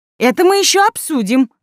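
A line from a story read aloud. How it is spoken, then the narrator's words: Exclamation. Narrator (Russian): воскликнула Райка Сидорова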